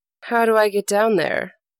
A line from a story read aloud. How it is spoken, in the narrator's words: asked Br'er Fox